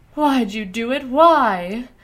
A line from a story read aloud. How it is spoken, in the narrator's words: Clee demanded tearfully